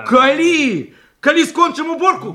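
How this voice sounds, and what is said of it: Shouting. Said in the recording (Ukrainian): “Не кричи!”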